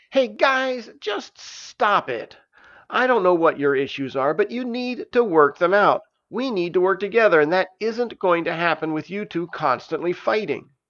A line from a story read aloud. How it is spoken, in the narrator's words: Stavius stepped into the room and yelled